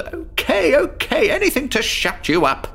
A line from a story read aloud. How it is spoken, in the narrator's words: Above the roar of the thunder, I yelled